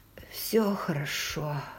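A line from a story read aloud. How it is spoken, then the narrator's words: Hoarse wheeze. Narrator (Russian): просипела я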